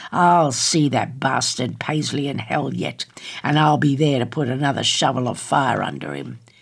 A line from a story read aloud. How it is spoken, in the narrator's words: snarled